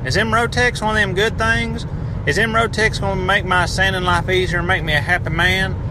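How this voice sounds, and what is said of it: Put-on Appalachian accent. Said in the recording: “I hope that accent got me on there ... now that I have insulted everyone in the Appalachian region”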